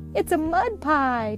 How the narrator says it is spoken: Tommy exclaimed

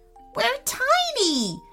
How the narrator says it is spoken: yelped Lincoln

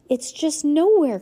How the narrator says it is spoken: cried Heidi

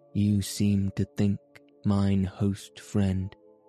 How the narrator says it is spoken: said quietly

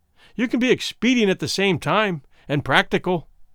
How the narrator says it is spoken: Womble said sharply

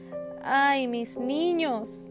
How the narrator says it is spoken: she cried throughout the night

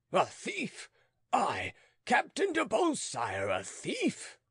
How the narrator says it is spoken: thundered the conqueror in the red cap

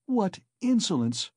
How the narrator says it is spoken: cried Dounia

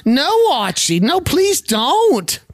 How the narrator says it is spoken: Edith shouts

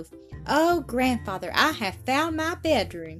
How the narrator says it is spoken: exclaimed the little girl

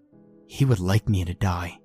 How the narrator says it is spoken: Cassie whispered in our head

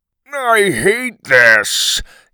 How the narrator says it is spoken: he grumbled

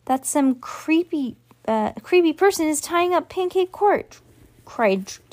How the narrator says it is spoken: squeaked Trevor

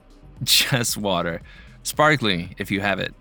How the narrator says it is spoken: Layla laughed

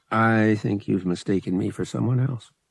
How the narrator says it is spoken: he said evenly

